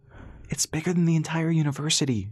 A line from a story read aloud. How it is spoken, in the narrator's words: she exclaimed